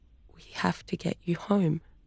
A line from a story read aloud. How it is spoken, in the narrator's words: Kaya whispered